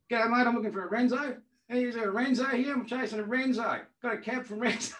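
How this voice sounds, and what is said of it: Broad Australian twang. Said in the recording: “this classic Australian twang”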